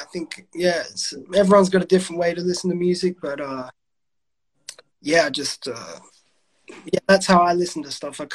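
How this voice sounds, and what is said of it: Australian accent. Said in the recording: “you can tell you got an accent ... you're from Adelaide”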